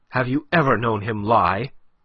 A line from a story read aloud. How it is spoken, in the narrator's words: cut in sharply